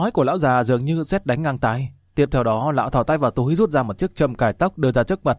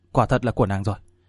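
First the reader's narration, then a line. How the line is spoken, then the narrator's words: Trembling voice. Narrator (Vietnamese): Chàng run rẩy nói rằng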